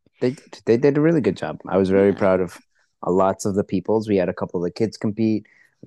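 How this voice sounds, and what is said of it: Hoarse, worn-out voice. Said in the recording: “my voice is gone because I was yelling a lot.”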